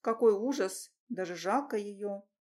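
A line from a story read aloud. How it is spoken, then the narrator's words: Muttering. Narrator (Russian): пробормотала Аня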